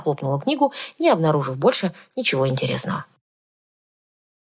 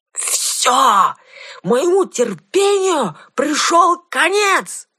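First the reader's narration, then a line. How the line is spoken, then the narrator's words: Yell. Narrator (Russian): заорал он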